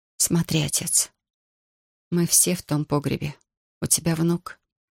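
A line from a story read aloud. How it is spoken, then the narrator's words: Barely audible, strained. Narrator (Russian): едва слышно выдавила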